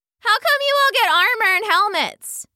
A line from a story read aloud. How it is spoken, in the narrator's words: one called out from the crowd